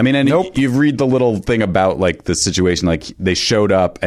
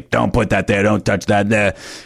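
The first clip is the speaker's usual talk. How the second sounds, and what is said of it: Imitates another person's voice. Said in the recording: “This is a great Jerry Lewis impression ... I was nailing it, actually.”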